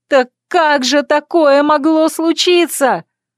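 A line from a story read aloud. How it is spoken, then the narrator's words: Yelling at top of lungs. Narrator (Russian): заорала я во все горло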